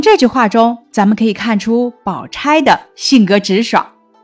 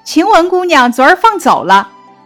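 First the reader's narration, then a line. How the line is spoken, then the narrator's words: Young maid laughing. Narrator (Chinese): 小丫头 笑道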